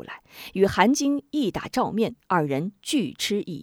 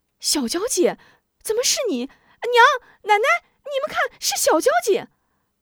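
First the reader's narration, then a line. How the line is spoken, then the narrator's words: Ecstatic shouting. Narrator (Chinese): 韩晶惊喜若狂，呼喊起来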